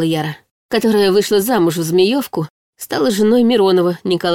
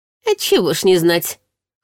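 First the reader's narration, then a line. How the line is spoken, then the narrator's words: Wry snort. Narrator (Russian): хмыкнула Татьяна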